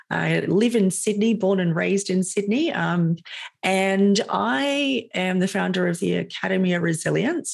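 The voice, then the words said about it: Australian accent. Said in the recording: “You can probably hear that I'm Australian.”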